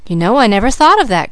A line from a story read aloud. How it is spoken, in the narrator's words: cried Mrs